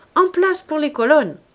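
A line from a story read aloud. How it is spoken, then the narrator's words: Shouted. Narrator (French): cria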